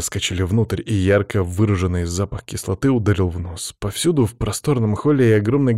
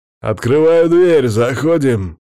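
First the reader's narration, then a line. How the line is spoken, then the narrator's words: Shout. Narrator (Russian): крикнул Макс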